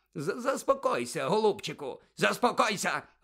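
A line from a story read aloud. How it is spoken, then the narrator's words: Barking. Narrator (Ukrainian): гаркнув Фадж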